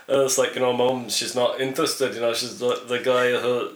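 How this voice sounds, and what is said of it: Poor put-on Scottish accent. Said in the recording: “That's a terrible accent ... generic accent, Scottish accent that I just can't do right now”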